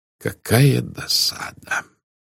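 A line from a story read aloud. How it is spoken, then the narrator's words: Irritated mutter. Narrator (Russian): пробормотал Пуаро раздраженно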